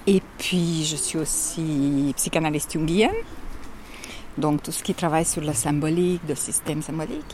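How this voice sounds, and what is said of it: Strong Hungarian accent in French. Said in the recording (French): “de Budapest, c'est ça l'accent terrible”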